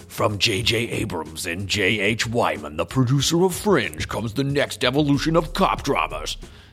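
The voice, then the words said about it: Dramatic TV announcer voice. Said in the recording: “Is that a good TV dramatic voice ... maybe it's not a good enough movie drama voice, but I feel like it definitely would work for TV.”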